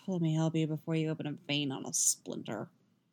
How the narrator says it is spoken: he mutters

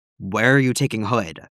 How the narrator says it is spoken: Batman growls, thankfully, at Constantine

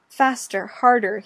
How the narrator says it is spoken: he pants

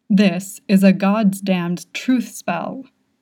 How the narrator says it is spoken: he says, sounding so greatly put upon

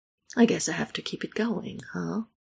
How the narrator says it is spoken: Michael mumbles

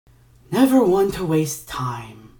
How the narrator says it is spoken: Ignatius sighed

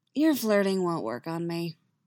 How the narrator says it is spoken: Yennefer says dryly

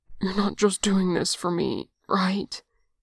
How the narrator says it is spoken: He rasps, even now, even like this

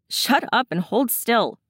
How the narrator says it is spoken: Shane snaps

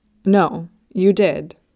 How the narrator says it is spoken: he said firmly

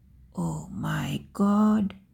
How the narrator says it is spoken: she whispered

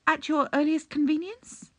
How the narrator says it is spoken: he added nervously

